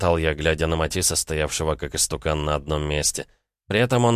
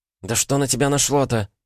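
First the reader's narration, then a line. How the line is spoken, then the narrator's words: Exclaimed. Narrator (Russian): воскликнула она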